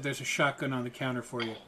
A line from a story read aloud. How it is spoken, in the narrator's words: Malcolm just looked at you flatly and said